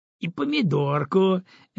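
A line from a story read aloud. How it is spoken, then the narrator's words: Cheerful chiming in. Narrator (Russian): весело подхватила Валентина Яковлевна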